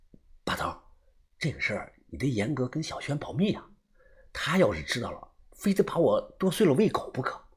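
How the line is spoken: Lowered voice. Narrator (Chinese): 我压低了声音说道

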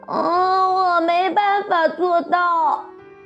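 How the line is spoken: Crying. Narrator (Chinese): 它哭鼻子说

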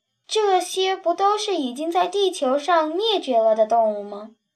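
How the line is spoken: Soft sigh. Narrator (Chinese): 他轻轻叹了口气

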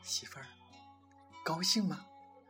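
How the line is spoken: Soft question. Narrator (Chinese): 男人轻声问

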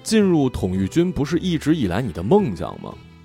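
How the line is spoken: Flat, indifferent. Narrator (Chinese): 阿瓜只是淡淡的说

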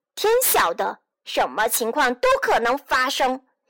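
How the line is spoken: Puppet roaring. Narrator (Chinese): 木偶吼叫

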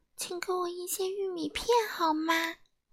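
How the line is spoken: Soft, quiet. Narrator (Chinese): 安静先生小声地说

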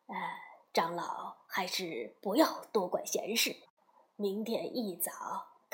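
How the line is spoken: Low whisper. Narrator (Chinese): 一程贴到唐僧的耳边，低声说

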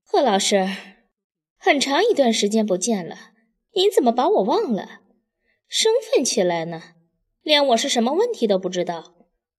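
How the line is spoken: Wry laugh. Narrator (Chinese): 大方苦笑

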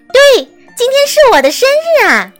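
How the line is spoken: Exclaiming. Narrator (Chinese): 安娜……叫道

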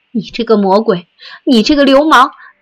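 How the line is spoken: Trembling breathless shouting. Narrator (Chinese): 他浑身颤抖 气喘吁吁地挣扎着嚷

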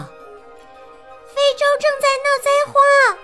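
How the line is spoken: Calling out. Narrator (Chinese): 茉莉叫

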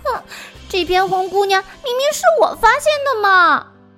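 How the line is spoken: Laughing. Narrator (Chinese): 蝈蝈忍不住笑着说

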